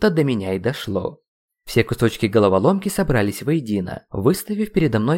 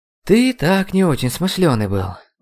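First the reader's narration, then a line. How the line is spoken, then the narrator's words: Sighing. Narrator (Russian): вздохнул магистр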